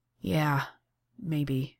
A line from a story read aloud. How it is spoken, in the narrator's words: sighs and tips his head back against the wall and says